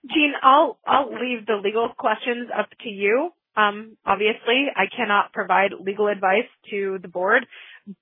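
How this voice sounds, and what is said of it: Hoarse, strained voice. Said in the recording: “I'm losing my voice. It's that time of year where allergies hit.”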